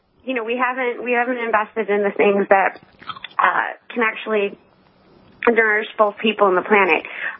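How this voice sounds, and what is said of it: Hoarse, croaky throat. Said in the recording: “I have a frog in my throat”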